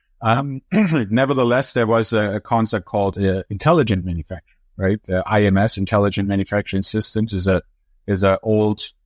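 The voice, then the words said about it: German accent. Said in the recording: “I'm from Europe, originally from Germany, as my accent and name probably gives away.”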